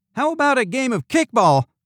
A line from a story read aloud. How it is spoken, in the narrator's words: Candy Bar shouted